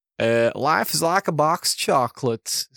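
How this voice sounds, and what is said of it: Poor Forrest Gump impression. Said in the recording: “awful impression ... my awful impression, we're talking about Forrest Gump”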